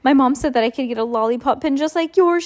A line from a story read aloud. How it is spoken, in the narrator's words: she said excitedly